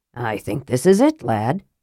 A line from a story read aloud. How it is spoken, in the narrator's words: he said softly